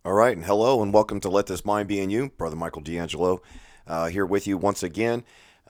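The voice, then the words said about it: Hoarse, strained, fading voice. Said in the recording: “As you can probably tell from my voice, um, I'm still struggling with uh, losing my voice.”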